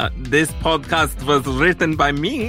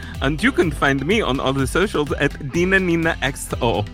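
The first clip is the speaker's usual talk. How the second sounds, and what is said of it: Put-on unidentified accent. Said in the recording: “I don't even know what accent that is.”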